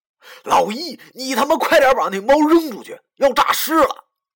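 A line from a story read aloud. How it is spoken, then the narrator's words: Hurried shout. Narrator (Chinese): 忙对他大喊道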